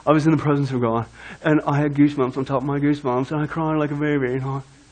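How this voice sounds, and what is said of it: Put-on surfer voice drifting English. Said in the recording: “talk like a surfer ... now I went from a surfer to an English dude. It's an English surfer.”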